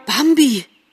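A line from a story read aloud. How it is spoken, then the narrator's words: Called out. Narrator (German): rief er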